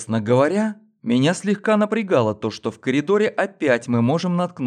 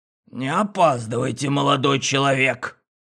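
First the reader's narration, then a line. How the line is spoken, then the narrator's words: Creaky old man, lecturing. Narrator (Russian): Старец проскрипеть с назиданием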